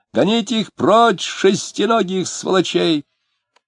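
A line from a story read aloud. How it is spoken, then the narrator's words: Small man yelling. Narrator (Russian): Маленький человек орал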